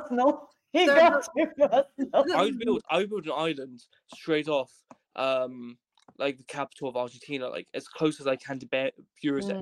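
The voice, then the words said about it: British accent. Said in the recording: “I've got a British accent.”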